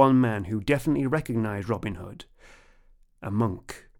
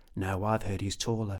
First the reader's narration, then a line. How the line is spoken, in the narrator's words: some other people whispered